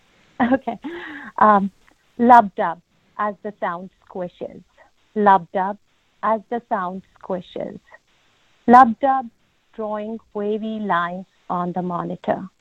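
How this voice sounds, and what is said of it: Heavy non-native English accent. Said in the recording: “English is my second language, so please pardon my heavy accent”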